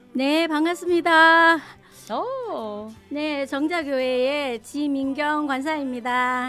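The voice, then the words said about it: Very bright, cheerful voice. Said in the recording (Korean): “너무나도 발랄한 목소리로”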